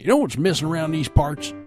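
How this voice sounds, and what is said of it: Put-on country accent. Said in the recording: “I got to do that with a country accent.”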